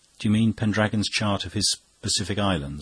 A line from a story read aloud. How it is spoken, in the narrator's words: asked Fanshawe